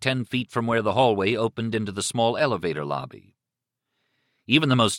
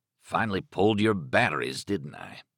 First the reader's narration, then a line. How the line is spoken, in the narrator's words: Stark murmured